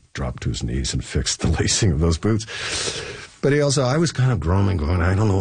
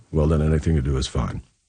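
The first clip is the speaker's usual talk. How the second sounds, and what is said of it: Good Leslie Nielsen impression. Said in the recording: “That was a good Leslie Nielsen impression, too, by the way.”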